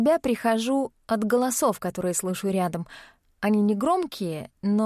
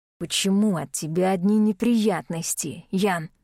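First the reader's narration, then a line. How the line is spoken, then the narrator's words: Hissing man. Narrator (Russian): с шипением произносит мужчина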